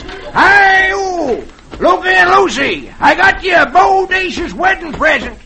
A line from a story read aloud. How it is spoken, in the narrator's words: he shouts